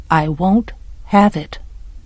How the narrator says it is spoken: Attica said softly

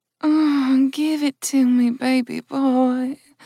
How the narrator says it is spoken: purred Jill

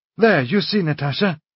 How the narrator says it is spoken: he cried

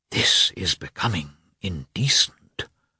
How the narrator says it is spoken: whispered a lady

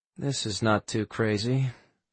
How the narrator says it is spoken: Quinn muttered under his breath

